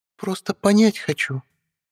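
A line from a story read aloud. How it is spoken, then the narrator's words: Honeyed purr. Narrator (Russian): Медовым голоском промурлыкала ведьма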